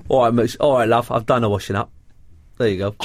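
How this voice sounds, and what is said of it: Put-on London accent. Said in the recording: “could you do that again in a London accent, please? ... London accent. ... You were like a Mitchell.”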